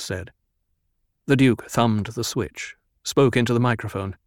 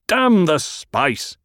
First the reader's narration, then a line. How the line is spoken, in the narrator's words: The Duke barked